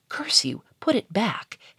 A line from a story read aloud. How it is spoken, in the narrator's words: hissed